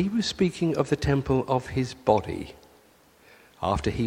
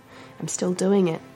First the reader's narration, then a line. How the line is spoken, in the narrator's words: Jesus sighed